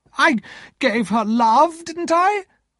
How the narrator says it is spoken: Miss Havisham cried

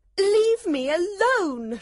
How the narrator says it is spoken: she cried

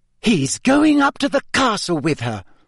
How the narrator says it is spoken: said Hermione indignantly

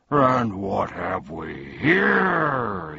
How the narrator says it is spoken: he roared

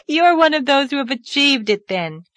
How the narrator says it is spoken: laughed Anne

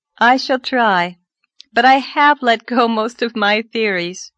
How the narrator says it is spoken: said Anne, laughing a little

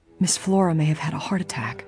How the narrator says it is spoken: she said in a whisper

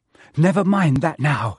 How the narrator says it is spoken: said Harry breathlessly

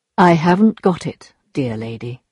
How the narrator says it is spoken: he looked sadly at her and replied very calmly

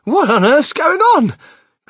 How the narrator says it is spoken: cried Grandma Josephine, waking up suddenly

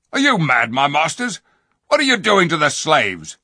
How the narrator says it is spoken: one of the soldiers said sharply

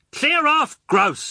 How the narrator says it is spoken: I shouted

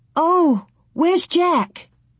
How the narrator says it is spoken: Laura cried

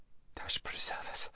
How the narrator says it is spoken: whispered Lazareline

